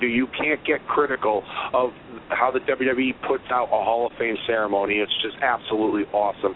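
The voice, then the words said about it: Hoarse, strained losing voice. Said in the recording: “you can tell my voice, I'm stuttering. You can tell my voice, I've lost my”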